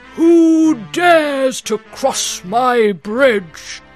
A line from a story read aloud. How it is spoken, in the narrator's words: he roared